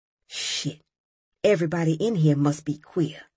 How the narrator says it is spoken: Robert whispered

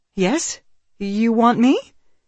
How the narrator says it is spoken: His voice rose almost to a falsetto

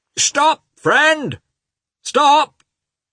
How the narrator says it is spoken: shouted two voices

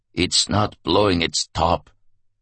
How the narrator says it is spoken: the commandant replied in a flat, hollow voice

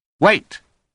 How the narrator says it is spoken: Holmes said sharply

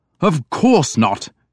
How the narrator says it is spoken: Edmund said angrily

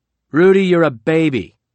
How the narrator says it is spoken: Trump said loudly

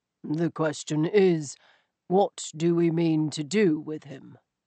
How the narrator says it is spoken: Stoker said softly

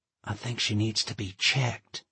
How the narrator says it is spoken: Pat whispered

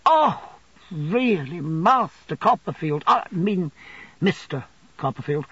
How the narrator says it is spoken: said Uriah

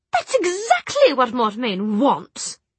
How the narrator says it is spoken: she sputtered

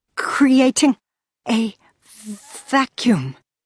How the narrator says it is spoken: stuttered Cassiel

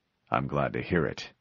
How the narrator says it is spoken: the chief answered dryly

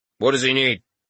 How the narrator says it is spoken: the man asked curtly

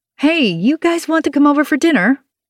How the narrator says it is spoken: I blurt, interrupting everyone

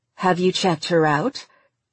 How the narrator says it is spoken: Meredith asked, her tone still skeptical

